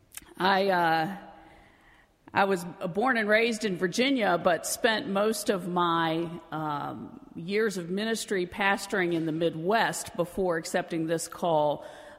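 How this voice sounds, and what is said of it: Non-New England American accent. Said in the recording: “I am new to Massachusetts, to New England, as you may have gathered from my accent. ... You don't talk like you're from around here.”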